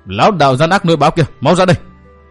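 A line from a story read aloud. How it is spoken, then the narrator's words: Shouting. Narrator (Vietnamese): Tiểu Nhạn hét lên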